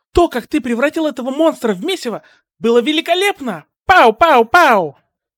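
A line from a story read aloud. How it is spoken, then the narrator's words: Excited exclamation. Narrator (Russian): воскликнула Мина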